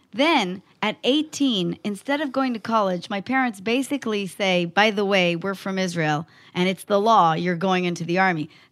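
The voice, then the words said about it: American-sounding English accent. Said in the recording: “as you can hear from my accent, socialized by Americans”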